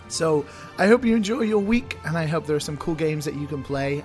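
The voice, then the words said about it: Raspy, worn-out voice. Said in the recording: “Hopefully my voice will return as well after all the talking I've been doing this weekend. I might sound a little raspy right now.”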